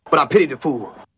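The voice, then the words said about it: Mr. T impression. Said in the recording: “That sounds like Mr. T. ... that accent”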